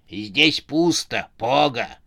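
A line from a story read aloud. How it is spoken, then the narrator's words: Hoarse female voice. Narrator (Russian): хриплый женский голос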